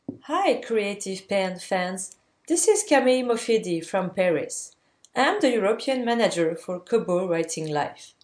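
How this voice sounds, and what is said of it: Foreign-accented English. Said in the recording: “you're going to love her accent”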